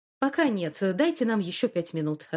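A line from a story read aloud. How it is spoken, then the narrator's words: Plain. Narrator (Russian): ответил Том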